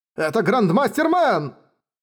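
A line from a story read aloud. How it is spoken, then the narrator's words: Crowd shouting. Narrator (Russian): закричали люди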